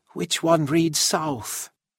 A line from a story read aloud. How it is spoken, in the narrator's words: she asked quietly